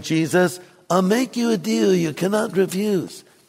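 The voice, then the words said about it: Bad Godfather impression. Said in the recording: “Bad imitation of the Godfather.”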